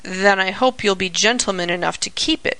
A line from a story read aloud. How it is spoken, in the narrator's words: grumbled Sammy, looking not at all pleased